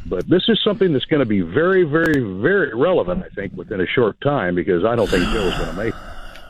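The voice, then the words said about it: Deep smooth radio-announcer voice. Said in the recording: “you got a radio voice, man. Should we do a commercial voiceover or something?”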